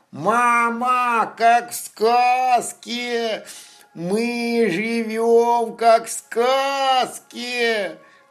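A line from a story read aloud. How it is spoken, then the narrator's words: Joyful shout. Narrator (Russian): Радостно закричал Лапа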